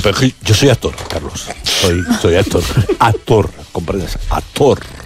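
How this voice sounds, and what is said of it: Exaggerated theatrical actor voice. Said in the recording (Spanish): “poner voz de actor”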